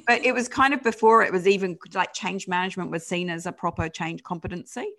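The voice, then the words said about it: British accent, not New Zealand. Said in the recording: “You can probably tell by the accent that I'm not um, born and bred Kiwi. ... I lived in the UK back then”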